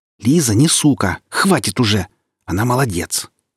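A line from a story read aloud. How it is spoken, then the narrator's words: Angry catlike hiss. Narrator (Russian): зашипела Оля рассерженной кошкой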